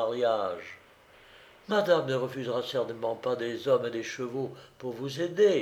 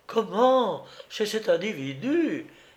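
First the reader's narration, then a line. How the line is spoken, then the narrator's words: Meaningful exclamation. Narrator (French): s'exclama Krylovna sur un ton qui en disait long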